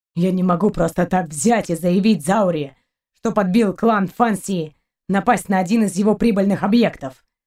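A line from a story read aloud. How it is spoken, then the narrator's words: Captain's grumble. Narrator (Russian): проворчал капитан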